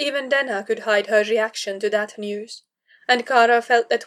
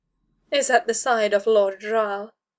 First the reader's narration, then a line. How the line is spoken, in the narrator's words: said coolly